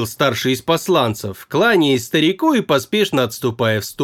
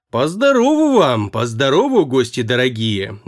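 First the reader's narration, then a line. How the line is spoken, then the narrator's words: Singsong drawl, older man. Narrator (Russian): нараспев протянул отец Игаши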